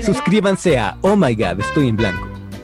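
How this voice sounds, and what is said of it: Projected commercial announcer voice. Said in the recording (Spanish): “una voz proyectada o una voz como de comercial”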